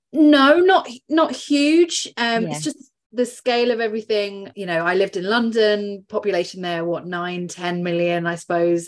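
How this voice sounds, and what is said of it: English accent. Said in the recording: “I don't have a lovely Irish accent. So you've just got the English one instead ... I still love the English accent”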